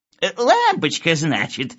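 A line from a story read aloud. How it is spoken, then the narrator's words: Old man, giggling. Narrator (Russian): сказал старичок, хихикая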